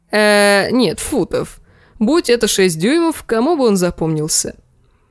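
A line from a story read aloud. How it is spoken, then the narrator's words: Girlish giggling. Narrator (Russian): Дэнни хихикала, как маленькая девочка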